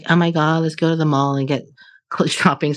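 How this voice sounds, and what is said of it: Put-on Valley Girl accent. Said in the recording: “I always do that Valley Girl accent”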